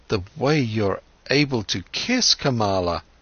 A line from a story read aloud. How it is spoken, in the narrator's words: stammered Siddhartha